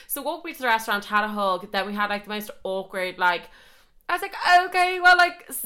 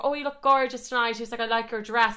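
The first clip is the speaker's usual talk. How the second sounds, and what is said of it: Put-on accent quoting a man. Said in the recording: “the accent I'm going to do for him”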